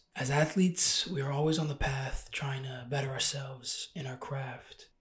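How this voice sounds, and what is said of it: Hoarse, monotone voice. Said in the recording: “I lost my voice on the road this weekend... Don't go too crazy on my voice. I know it's monotone.”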